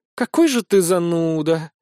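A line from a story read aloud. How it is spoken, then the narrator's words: Hurt sigh. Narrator (Russian): обиженно вздохнула она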